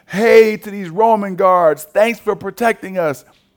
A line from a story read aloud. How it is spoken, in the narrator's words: people shout